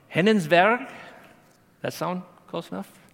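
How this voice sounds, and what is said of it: Fake Norwegian accent. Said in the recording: “I'm going to slaughter this ... That's my fake Norwegian accent.”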